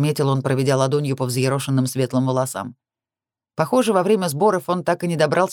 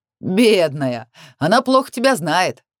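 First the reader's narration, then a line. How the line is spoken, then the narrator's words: Laughing loudly. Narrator (Russian): Расхохотался он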